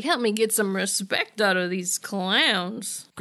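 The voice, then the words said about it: Impression of a TV character's voice. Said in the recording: “Great Xander impression. Perfect. Dead on.”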